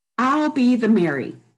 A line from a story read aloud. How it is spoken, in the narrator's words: Imogene yelled